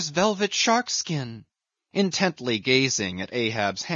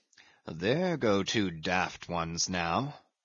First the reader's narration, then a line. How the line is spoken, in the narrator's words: muttered the old Manxman